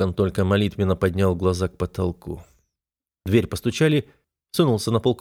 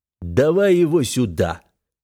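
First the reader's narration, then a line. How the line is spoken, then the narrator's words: Growled. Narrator (Russian): прорычал Многон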